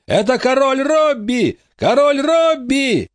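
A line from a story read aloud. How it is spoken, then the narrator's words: Shouted. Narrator (Russian): закричал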